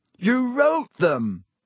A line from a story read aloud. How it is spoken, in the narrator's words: Harry shouted